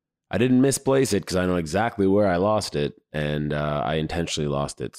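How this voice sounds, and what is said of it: Hoarse, strained voice. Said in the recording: “If you can hear by my hoarse voice, I lost it.”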